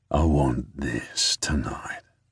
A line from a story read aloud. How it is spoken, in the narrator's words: purrs